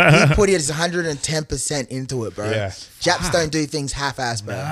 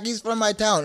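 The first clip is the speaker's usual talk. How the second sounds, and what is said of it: Put-on African accent. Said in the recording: “I don't know why I said it in African accent.”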